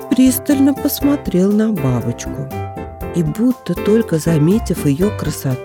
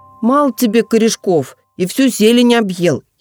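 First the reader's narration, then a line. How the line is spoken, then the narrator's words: Sarcastic, rude insect voice. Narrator (Russian): язвительно и грубо произнес слепень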